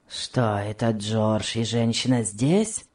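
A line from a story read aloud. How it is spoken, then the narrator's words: Grumbling question. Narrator (Russian): спросил он ворчливым тоном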